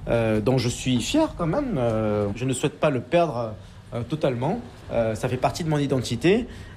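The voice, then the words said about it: Slight southern French Marseille accent. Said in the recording (French): “une pointe d'accent... plutôt du sud que du nord... pas vraiment l'accent ch'ti... une petite touche d'accent marseillais”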